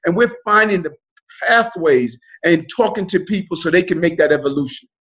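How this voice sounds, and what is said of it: New York accent. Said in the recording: “you're a New York native. I hear it all through the accent.”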